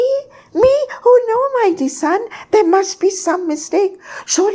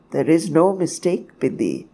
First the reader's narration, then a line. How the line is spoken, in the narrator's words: says, talking softly and calmly in the face of my hysterical outburst